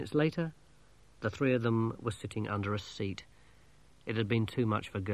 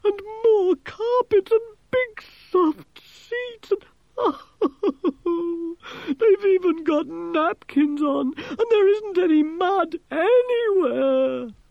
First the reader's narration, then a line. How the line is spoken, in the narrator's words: moaned